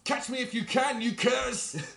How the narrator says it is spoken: I'm going to yell down at them

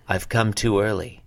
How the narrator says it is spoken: he said

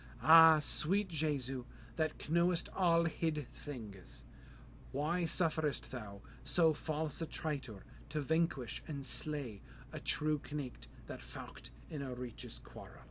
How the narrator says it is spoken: the 12 maidens cried aloud that all the court meeked hear, and sighed

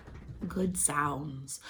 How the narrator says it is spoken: my doula, Megan, quietly saying

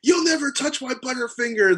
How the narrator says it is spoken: he screams at me

